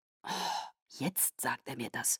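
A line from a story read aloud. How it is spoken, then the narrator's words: Murmured. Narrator (German): murmelte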